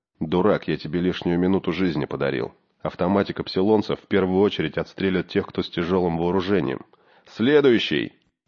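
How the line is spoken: Low undertone. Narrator (Russian): Володька сказал вполголоса

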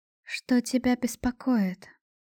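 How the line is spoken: Soft question. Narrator (Russian): мягко спросила

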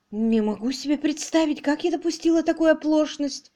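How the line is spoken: Muttered. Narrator (Russian): пробормотала мисс Мерчисон

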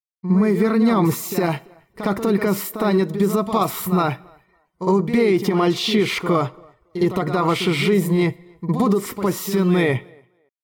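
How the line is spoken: Hiss. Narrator (Russian): прошипел крупный Раззак

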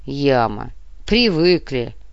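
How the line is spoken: Sigh. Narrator (Russian): Капитан вздохнул

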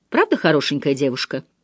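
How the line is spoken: Forced casual tone. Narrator (Russian): Он пытался говорить небрежным тоном

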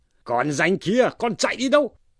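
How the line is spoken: Loud shout. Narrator (Vietnamese): Lâm Sung quát to lên rằng

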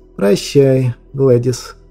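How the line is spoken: Ruler's muffled, hollow voice. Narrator (Russian): глухо молвил правитель

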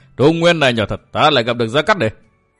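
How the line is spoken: Loud laughing speech. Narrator (Vietnamese): Gã cười lớn nói

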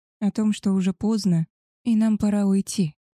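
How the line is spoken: Hoarse. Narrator (Russian): хрипло ответила

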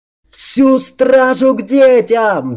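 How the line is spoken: Frantic yell. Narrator (Russian): Заорал я, как сумасшедший

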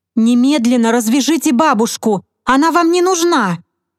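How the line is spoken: Shouting while hurrying. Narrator (Russian): крикнула девушка, прибавляя шаг

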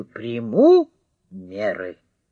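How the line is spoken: Stern repetition. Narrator (Russian): еще раз строго повторил

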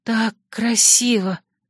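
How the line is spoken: Breathless awed whisper. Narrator (Russian): прошептала, не в силах даже нормально дышать от восхищения

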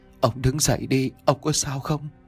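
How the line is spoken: Old woman's trembling voice. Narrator (Vietnamese): Giọng của bà run rẩy mà nói

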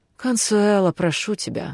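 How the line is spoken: Sighing. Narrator (Russian): вздохнула Альва

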